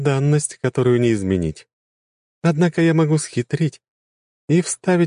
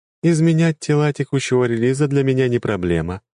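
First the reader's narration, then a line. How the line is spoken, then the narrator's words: Plain. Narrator (Russian): ответила игра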